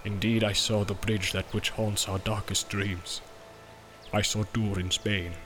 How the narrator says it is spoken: said Gimli in a low voice, and dread was in his eyes

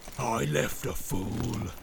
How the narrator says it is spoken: snarled Grishnak

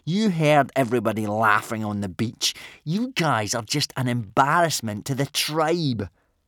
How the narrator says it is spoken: sneered Snotlout

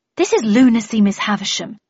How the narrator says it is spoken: I replied indignantly

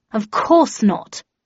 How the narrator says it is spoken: replied Shithouse in an offended tone

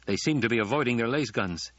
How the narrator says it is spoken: he said

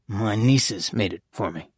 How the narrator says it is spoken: Father Achille muttered

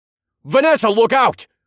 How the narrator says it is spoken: shouted

